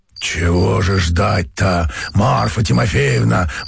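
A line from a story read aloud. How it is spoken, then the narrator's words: Hoarse male bass objecting. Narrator (Russian): возражал мужской хриповатый басок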